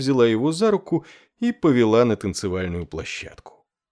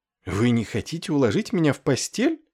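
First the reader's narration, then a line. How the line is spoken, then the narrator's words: Surprised exclamation. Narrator (Russian): с удивлением воскликнула Лючана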